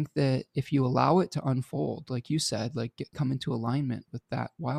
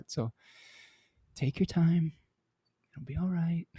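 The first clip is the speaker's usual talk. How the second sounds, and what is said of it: Motherly reassuring voice. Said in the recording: “It's my mom voice.”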